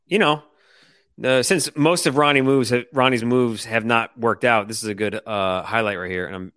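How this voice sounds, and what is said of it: Sarcastic tone. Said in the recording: “I'm being sarcastic, terrible sarcasm.”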